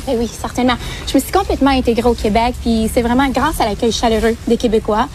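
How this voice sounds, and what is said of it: Québécois French accent. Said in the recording (French): “vous parlez français, oui, mais avec l'accent québécois”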